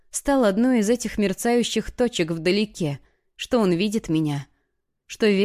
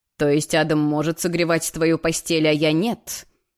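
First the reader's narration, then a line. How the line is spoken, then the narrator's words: Growled close to neck. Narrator (Russian): прорычал он, наклонившись к моей шее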